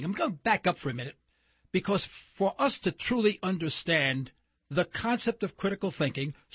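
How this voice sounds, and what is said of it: New York accent. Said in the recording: “you probably have detected from my accent, I am probably not from Oklahoma. Yes, I'm from New York City.”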